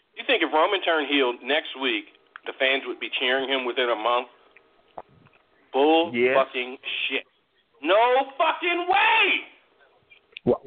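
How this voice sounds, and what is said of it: Raised, shouting voice. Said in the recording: “raising your voice”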